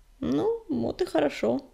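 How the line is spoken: Mumbling. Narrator (Russian): промямлил Огнегрив

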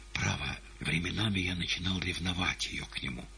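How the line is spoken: Whispered. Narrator (Russian): шептал пришедший с лунного балкона ночной гость Ивану

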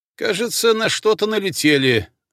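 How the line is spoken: Loud explanation. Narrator (Russian): громко пояснил Смирнов

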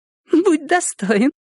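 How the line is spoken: Giggling. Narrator (Russian): хихикнула она

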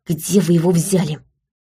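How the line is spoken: Indignant whisper. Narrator (Russian): спросила я возмущенным шепотом

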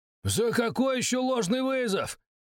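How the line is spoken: Shouting. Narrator (Russian): кричал Бахтияров

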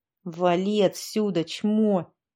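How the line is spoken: Through gritted teeth. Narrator (Russian): процедил сквозь зубы Ванька Афанасьев

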